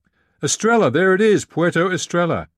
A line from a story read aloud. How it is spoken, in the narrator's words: suddenly Dana shouted